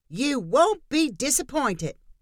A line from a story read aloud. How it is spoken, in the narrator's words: Diane called out